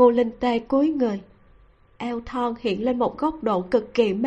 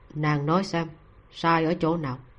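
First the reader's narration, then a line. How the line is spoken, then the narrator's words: Very gentle voice. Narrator (Vietnamese): tiếng nói vô cùng dịu dàng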